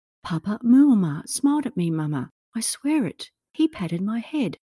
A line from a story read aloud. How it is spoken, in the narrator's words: said to her mother excitedly